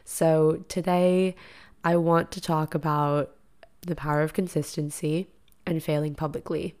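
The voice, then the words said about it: Raspy, slightly deeper voice. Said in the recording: “my voice sounds like this because I just woke up... my voice is like a little bit raspy, a little bit deeper... if you are wondering why I sound like I'm sick”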